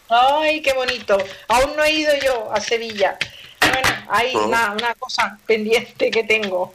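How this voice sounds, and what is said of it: Barcelona Spanish accent. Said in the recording (Spanish): “soy de Barcelona, anda que no se me nota a mí el acento que llevo”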